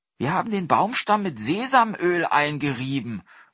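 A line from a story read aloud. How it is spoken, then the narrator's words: Boy calling out. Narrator (German): rief der Junge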